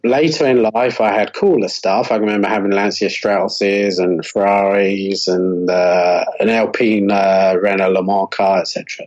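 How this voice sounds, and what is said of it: Monotone Bristolian British accent. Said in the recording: “monotone Bristolian British accent”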